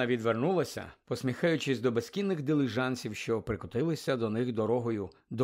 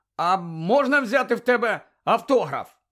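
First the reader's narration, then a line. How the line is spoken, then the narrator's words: Shout. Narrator (Ukrainian): Рон раптом крикнув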